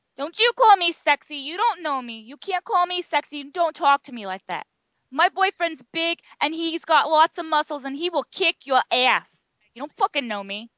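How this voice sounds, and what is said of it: Exaggerated New York or Jersey accent. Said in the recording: “I love your New York accent. ... I do horrible at accents because I wasn't really trying. I don't even think that's really New York. It's more like Jersey, York.”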